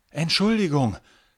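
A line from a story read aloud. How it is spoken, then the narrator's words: Breathless blurt. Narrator (German): stößt Finn atemlos hervor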